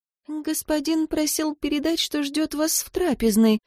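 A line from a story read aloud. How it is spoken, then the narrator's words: Timid servant reminding. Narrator (Russian): робко напомнила служанка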